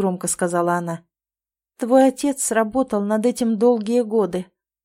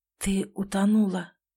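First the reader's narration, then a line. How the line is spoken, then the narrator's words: Whispered. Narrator (Russian): прошептал он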